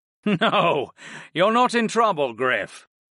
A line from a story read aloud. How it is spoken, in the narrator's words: the headmaster chuckled